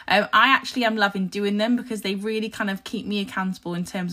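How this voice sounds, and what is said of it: Croaky, husky voice. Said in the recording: “you can probably tell my voice is a little bit croaky. I have had a sore throat ... apologies for any croakiness, any husky voice”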